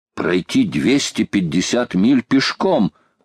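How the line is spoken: Young man exclaiming. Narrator (Russian): воскликнул молодой капитан

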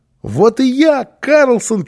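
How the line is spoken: Child shouting. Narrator (Russian): крикнул малыш

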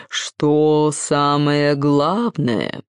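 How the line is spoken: Creaky voice, key. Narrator (Russian): проскрипел сам ключ

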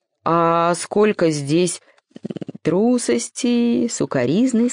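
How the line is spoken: Plain, the sun. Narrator (Russian): сказала солнце

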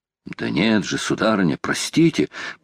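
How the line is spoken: Muttered, old sailor. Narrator (Russian): пробормотал старый моряк

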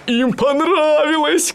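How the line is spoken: Shout. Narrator (Russian): кричал он

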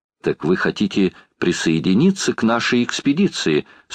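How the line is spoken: Plain. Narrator (Russian): спросила леди Элен

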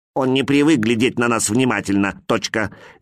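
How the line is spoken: Angry. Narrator (Russian): сердито сказал другой человечек

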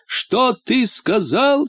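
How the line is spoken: Male shout again. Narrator (Russian): снова крикнул он

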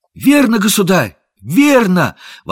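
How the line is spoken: Exclaimed. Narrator (Russian): воскликнул Том Кенти

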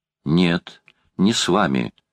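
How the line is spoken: Boy's decisive declaration. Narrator (Russian): решительным тоном заявил мальчик

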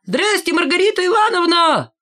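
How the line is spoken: Loud shout. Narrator (Russian): Валька громко крикнул

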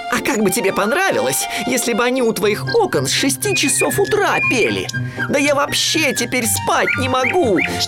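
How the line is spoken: Yelling. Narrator (Russian): вопил он

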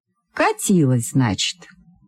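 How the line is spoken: Plain. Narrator (Russian): сказал милиционер

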